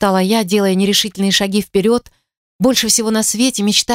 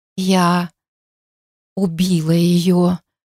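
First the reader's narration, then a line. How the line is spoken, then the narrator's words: Muffled whisper. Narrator (Russian): глухо прошептала в ответ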